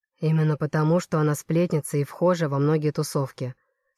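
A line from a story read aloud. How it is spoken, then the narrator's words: Calm explanation. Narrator (Russian): спокойно поясняет Градов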